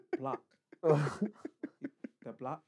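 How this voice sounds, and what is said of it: Says words in a put-on accent. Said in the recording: “Why are you saying it in that accent?”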